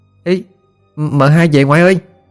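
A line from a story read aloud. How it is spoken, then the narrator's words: Child shouting. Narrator (Vietnamese): bé Thia ... nó la lên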